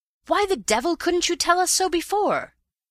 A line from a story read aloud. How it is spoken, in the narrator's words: he cried